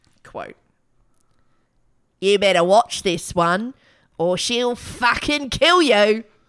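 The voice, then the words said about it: Failed Australian accent, sounds British. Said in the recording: “How come she's got a British accent? ... I'm trying to do an Australian accent. I can't do it.”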